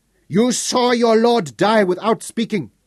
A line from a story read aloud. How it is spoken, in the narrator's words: screeched